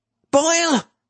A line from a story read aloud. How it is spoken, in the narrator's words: Boykin cried